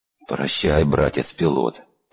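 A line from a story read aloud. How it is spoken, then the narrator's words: Mumbled. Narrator (Russian): промямлил я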